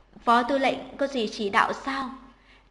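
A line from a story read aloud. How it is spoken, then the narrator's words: Cold question. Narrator (Vietnamese): Tạp sát nhân lạnh lùng hỏi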